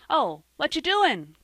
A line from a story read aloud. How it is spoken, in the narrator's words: cried Joel